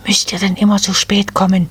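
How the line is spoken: Hissed. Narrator (German): zischte die Nadelfee die Wipfelelfen an

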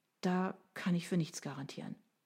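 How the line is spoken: Sighing. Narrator (German): seufzte sie

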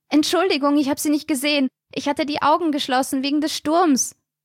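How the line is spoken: Shouting through snowstorm. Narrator (German): schrie sie durch die wirbelnden Schneeflocken

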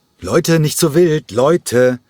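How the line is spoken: Interjecting call. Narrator (German): rief Nikos Chalergis in einer winzigen Pause dazwischen

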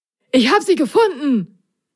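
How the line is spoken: Excited call. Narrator (German): rief Prop aufgeregt

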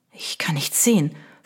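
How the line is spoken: Whisper, unnaturally loud. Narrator (German): flüsterte er, und auch das klang in dem stillen Zimmer unnatürlich laut

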